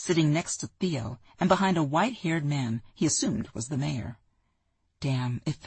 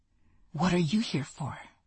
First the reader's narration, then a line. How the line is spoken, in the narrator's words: the woman whispered